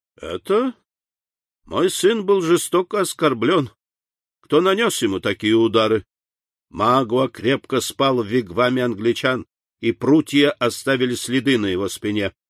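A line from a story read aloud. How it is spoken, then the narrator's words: Muffled laugh, fierce malice. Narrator (Russian): ответил индеец и засмеялся глухим смехом, не скрывая душившей его свирепой злобы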